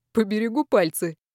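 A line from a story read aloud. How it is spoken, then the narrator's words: Soft laugh. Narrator (Russian): негромко рассмеялся Александр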